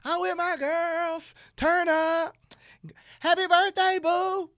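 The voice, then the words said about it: Imitates a woman's voice. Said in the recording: “That's my impressionation of a woman... That was my impersonation to you.”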